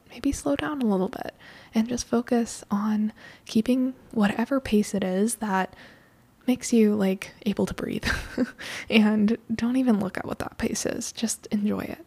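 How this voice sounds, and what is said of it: Hoarse, fading voice. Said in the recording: “I'm losing my voice.”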